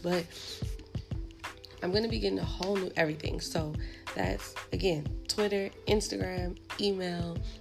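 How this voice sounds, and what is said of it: Voice cutting in and out. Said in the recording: “my voice is going in and out, and I think it's because of allergies”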